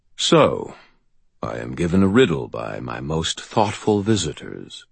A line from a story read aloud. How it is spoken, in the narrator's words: he said, his voice rumbling